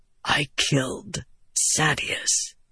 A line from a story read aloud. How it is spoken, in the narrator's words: Adolin whispered